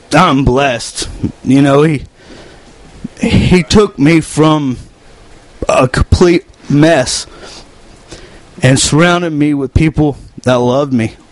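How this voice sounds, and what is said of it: Choked-up emotional voice. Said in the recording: “getting choked up”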